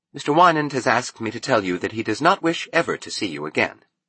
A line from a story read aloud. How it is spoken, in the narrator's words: She added, her voice polite, disciplined